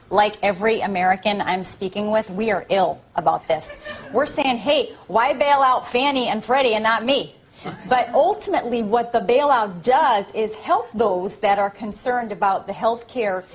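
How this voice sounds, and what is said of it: Tina Fey impersonating Sarah Palin. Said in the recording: “Tina Fey, Sarah Palin parody ... Tina Fey impersonation”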